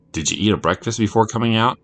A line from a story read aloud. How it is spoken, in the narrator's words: asked Jimmy